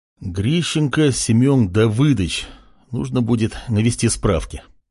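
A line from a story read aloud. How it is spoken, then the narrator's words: Muttered. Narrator (Russian): бормотал Артем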